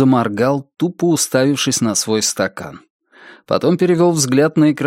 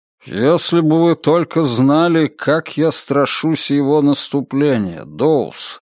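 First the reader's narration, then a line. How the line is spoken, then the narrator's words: Gloomy. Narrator (Russian): мрачно промолвил Мальоре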